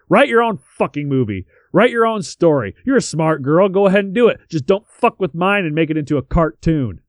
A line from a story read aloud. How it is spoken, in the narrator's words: Hunter screaming at Davies